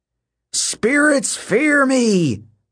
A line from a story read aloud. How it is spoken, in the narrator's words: Hedge bellowed